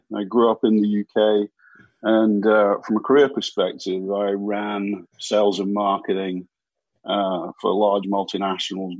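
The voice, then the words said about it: British accent. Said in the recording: “you'll probably gather from the accent that I'm not from around here”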